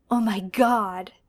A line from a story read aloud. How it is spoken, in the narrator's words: John says in a gasp, because he's pretty sure Teresa didn't have a mouth like this